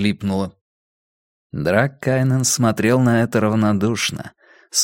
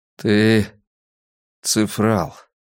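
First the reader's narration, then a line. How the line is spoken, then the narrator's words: Lifeless flat voice. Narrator (Russian): произнес он мертвым голосом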